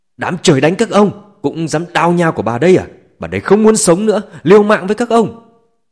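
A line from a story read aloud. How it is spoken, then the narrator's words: Frantic terrified screaming. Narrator (Vietnamese): nét mặt Chu Kim Hảo tràn đầy hoảng sợ, như phát điên gào thét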